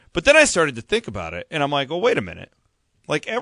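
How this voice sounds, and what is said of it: Usual voice. Nothing is said of it.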